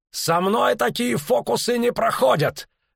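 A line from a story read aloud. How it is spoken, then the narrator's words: Barked. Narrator (Russian): рявкнул охотник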